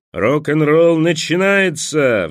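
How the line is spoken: Roaring. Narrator (Russian): взревел сапер

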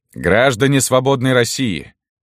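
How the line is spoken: Very loud exclamation. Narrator (Russian): воскликнул Керенский так, что его услышали даже на дальних концах баррикады

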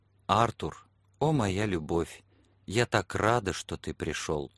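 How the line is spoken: Soft whisper. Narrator (Russian): тихо прошептала

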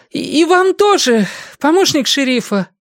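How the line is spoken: Pleading. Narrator (Russian): взмолилась она, отвечая

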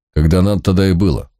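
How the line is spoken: Old man's self-important snort. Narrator (Russian): важно хмыкнул старик

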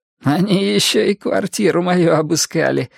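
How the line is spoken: Giggling, like a dirty joke. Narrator (Russian): хихикнул Гарри, словно рассказывая непристойный анекдот

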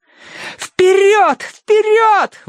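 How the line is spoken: Screaming over noise. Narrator (Russian): вопила Минкс ему в ухо, чтобы он расслышал ее сквозь грохот

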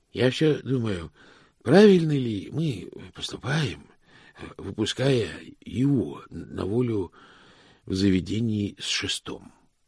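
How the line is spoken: Uncertain question. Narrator (Russian): спросил Икс неуверенно

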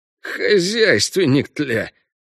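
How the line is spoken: Hissing. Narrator (Russian): прошипел кто-то, кажется, половинчик Трыня

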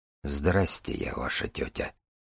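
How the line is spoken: Muttered. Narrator (Russian): пробормотал Дар

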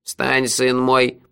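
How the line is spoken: Grumbling. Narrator (Russian): проворчал Куруш

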